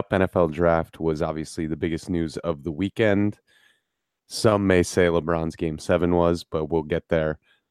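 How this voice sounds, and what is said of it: Raspy congested voice. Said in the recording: “it's allergy season, and I'm getting hit brutally hard right now ... The ladies love a raspy voice.”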